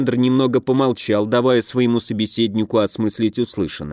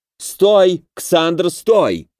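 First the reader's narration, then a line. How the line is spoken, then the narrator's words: Yelling. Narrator (Russian): завопило зеркало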